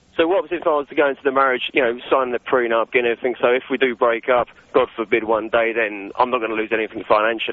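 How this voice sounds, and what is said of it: Slight non-American accent. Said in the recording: “a bit of an accent ... that's a little bit of an American thing”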